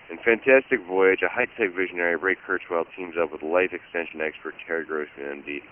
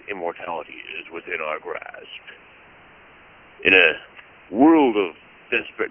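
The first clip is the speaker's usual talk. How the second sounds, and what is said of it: Dramatic radio announcer voice. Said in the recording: “that was Mr. Radio voice taking over there”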